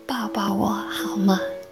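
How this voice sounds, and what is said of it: Tiny, mosquito-faint voice. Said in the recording (Chinese): “用小的像蚊子般的声音说道”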